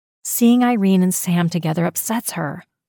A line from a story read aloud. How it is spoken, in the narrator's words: Jenny sighed